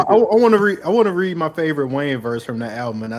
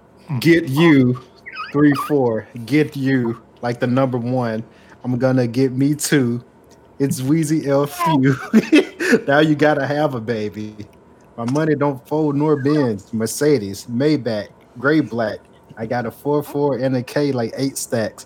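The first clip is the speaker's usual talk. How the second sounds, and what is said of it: Sarcastic reading of lyrics. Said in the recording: “I say this sarcastically”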